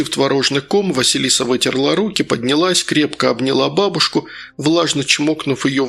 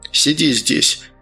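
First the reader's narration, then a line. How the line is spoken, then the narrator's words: Dull, muffled. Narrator (Russian): глухо произнес отец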